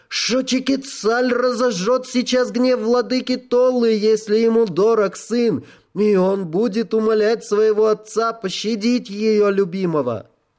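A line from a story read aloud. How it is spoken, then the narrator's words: Shouted. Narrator (Russian): она крикнула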